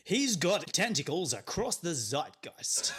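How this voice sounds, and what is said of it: Matt Berry impression. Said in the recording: “do a Matt Berry impression ... That was IT crowd, was Matt Berry. Yeah, yes. That was good.”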